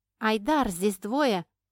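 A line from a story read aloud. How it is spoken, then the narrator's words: Shouted. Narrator (Russian): крикнула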